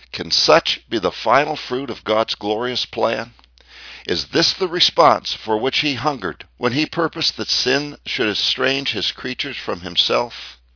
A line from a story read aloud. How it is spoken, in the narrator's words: our hearts will whisper